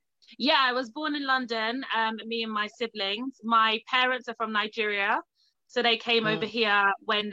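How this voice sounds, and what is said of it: Noticeable accent. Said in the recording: “we also have accents. I love your accent”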